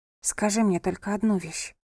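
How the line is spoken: Whisper. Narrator (Russian): прошептала София

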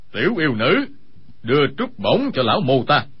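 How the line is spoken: Cold speech. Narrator (Vietnamese): lạnh lùng nói

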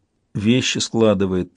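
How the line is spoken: Tired reply. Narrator (Russian): устало отозвалась Кифрия

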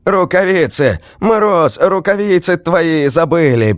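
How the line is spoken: Snowman shouting. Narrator (Russian): закричал снеговик

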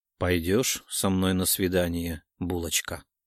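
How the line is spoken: Quiet question. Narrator (Russian): тихо спросил Илья, склонившись носом в мою макушку

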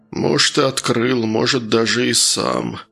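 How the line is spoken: Gloomy mutter. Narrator (Russian): мрачно пробормотал колдун

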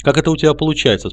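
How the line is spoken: Plain. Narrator (Russian): спросил

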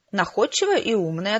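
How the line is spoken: Plain. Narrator (Russian): ответила я

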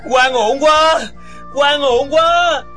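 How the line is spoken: Anguished, furious shouting. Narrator (Vietnamese): Địch dân lòng đầy phẫn nộ, tâm hồn đau khổ, không quản đau đớn, lớn tiếng hét

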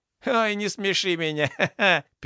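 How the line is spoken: Loud guffawing laughter. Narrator (Russian): Пернатый прям захохотал в голос

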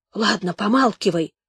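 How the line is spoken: Snapped whisper. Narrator (Russian): огрызнулся шепотом ополченец

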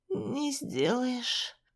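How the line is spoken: Hoarse croak. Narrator (Russian): прохрипела я

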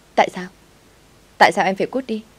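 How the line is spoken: Shouting. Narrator (Vietnamese): Tôi hét lên

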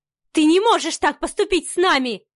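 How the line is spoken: Distraught shouting. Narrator (Russian): кричала Ева, окончательно растеряв весь свой лоск светской львицы

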